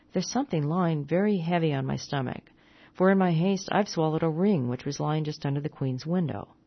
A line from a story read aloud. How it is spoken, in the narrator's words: one of them remarked rather sadly